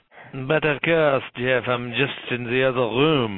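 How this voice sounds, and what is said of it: Delicate put-on French accent. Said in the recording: “he'll probably speak to us with a very delicate French accent.”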